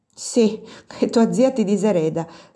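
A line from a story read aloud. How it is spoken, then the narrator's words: Added laughing. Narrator (Italian): soggiunse Chiarina ridendo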